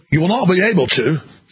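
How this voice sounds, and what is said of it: Poor Australian accent, sounds British. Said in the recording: “I can't really do a good Australian accent, which is like ... That's more of a British accent.”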